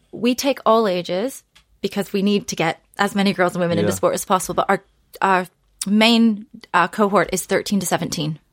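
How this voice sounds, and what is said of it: North American accent. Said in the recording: “we can detect a North American accent with you. It's the good one, not the bad one.”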